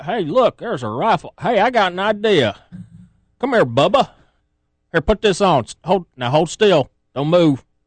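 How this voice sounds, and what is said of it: Put-on Arkansas accent. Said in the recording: “Don't question me on my Arkansas accent there.”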